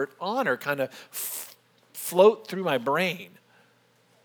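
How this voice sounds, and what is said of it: Usual voice. Nothing is said of it.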